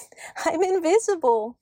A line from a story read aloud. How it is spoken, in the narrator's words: giggled Toinette